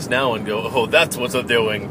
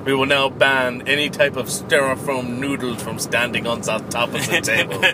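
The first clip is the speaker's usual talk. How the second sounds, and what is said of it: Put-on German accent. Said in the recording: “I gave Gamma a German accent.”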